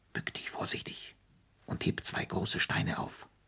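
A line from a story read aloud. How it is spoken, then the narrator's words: Pursed-lip whisper. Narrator (German): Mit gespitzten Lippen flüsterte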